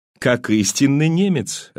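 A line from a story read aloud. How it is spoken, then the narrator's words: Laughing. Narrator (Russian): рассмеялся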